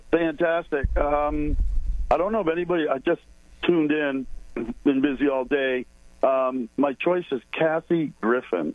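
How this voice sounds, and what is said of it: Hoarse, strained voice. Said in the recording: “Kind of lost my voice.”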